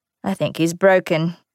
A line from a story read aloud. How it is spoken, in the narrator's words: Aaron said dryly